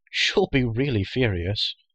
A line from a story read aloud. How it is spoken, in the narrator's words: added with a delighted laugh